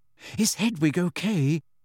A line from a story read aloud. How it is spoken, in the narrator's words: asked Hermione anxiously